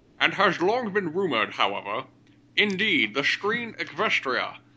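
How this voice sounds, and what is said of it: Sean Connery impression. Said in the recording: “What voice should I do for this? ... Sean Connery. ... Sean Connery it is.”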